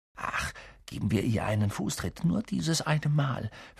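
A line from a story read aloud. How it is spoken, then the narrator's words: Whispered into ear. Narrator (German): flüsterte Ron Harry ins Ohr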